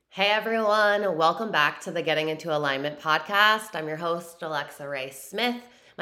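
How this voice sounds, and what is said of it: Slightly raspy voice. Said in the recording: “My voice is a little raspy right now because I have been going ham on teaching lives on TikTok”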